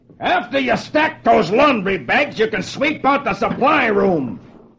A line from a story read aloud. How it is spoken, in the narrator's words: One of his officers shouts at him